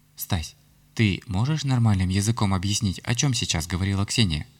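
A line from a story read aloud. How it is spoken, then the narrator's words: Anxious question. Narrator (Russian): взволнованно спросила меня Ярославна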